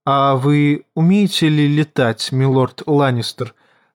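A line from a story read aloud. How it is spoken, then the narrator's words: Plain. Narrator (Russian): спросила леди Лиза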